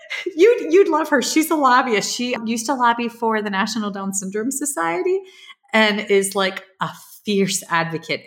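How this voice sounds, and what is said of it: Thick Long Island accent. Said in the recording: “my thick Long Island accent.”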